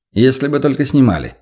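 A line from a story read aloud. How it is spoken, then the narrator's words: Plain. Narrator (Russian): сказал Владимир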